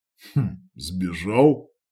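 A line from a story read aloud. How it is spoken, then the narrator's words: Skeptical snort. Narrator (Russian): хмыкнул он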